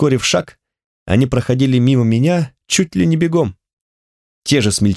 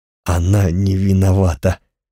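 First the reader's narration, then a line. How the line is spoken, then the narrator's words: Hoarse rasp. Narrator (Russian): прохрипел Йори, бледный как привидение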